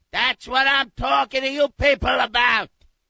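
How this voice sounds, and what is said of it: Screaming, shouting angrily. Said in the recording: “Stop screaming.”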